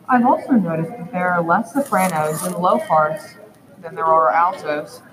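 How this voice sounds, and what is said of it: Naturally deep girl's voice. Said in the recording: “I have a naturally deep voice, especially considering most girls in my age.”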